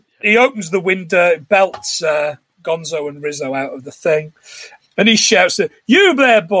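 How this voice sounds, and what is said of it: Usual voice. Nothing is said of it.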